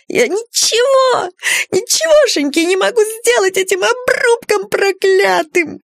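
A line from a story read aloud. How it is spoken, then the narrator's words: Sobbing. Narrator (Russian): культяшка зарыдал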